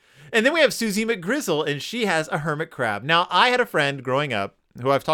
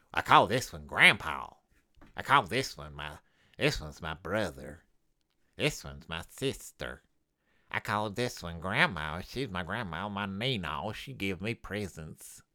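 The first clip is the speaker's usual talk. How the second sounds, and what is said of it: Cartoon character voice. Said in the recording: “my impression of Barry Bruin”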